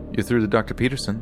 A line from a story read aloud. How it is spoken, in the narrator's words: they said